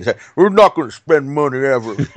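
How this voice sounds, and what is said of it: Put-on Southern Bayou-style accent. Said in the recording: “I don't know what accent I'm doing, but I'm mad ... Sounds like from the Bayou. ... It's just a blend of my East Coast rubbish, like my bias against the South”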